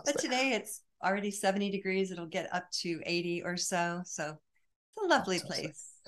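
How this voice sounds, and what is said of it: American accent. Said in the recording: “I can tell from your accent that you're from across the fair shores, from the far reaches of the colonies... Colorado”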